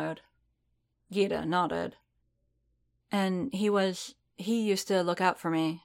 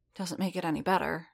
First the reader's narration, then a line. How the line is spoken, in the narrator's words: she muttered